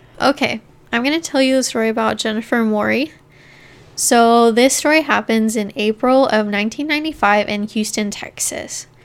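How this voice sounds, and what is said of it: Out of breath speaking. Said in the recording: “I'm going to be out of breath this whole time because, once again, I can't breathe”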